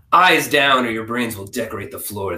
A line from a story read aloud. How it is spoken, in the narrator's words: the guard growled